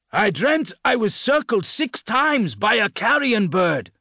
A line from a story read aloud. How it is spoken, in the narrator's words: said loudly